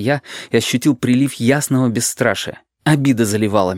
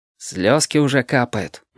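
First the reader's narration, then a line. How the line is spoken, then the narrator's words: Gloomy remark. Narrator (Russian): мрачно заметил Павлик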